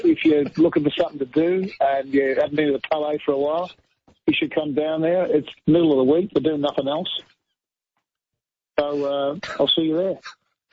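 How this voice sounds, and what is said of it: Put-on Australian accent. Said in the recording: “can you do it in your best Australian accent ... That is magnificent”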